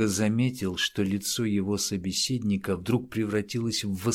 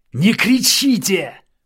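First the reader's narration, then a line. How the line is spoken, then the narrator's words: Killer shouting back. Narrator (Russian): В свою очередь закричал убийца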